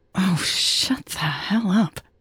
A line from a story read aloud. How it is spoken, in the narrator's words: Natalie hissed at her own uncontrolled mind